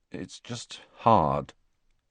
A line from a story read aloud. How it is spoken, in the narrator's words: Harry said finally in a low voice